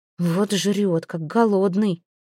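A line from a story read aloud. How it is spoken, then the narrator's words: Muttered under breath. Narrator (Russian): пробурчала она себе под нос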